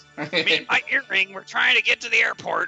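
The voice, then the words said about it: Gruff cantankerous old man voice. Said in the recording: “Why is he so cantankerous? ... He's just a curmudgeon. ... I thought that was actually a really good impression.”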